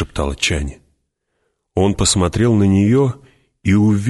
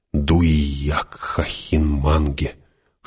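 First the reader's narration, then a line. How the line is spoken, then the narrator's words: Whispered. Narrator (Russian): Шепотом проговорила Чани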